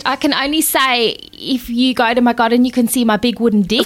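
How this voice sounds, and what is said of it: Put-on South African accent. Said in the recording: “that is the best South African accent you've ever done”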